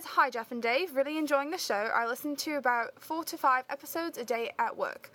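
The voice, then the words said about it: Attempted British accent. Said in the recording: “I will try to read it in a British accent”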